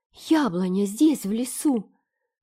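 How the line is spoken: Delighted exclamation. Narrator (Russian): восхищенно воскликнула Энн

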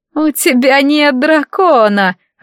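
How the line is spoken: Laughing, mocking. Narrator (Russian): рассмеялась леди Малива

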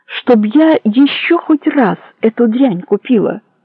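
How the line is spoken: Exasperated exclamation. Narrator (Russian): в сердцах воскликнула она

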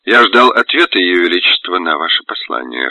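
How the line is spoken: Prince speaking gloomily. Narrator (Russian): хмуро сказал князь

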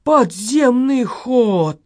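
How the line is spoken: Breathed out. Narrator (Russian): выдохнул полицейский

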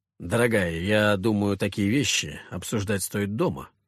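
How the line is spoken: Wry snort. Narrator (Russian): хмыкнув, произнес я

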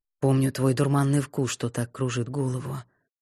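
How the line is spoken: Muttering. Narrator (Russian): пробормотал сиятельный

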